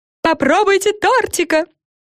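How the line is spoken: Witch screaming. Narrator (Russian): завопила какая-то ведьма

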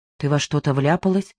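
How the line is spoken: Quiet question. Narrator (Russian): тихо спросил Димка

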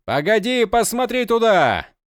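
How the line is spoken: Sudden shout. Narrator (Russian): закричал он Кориал сразу

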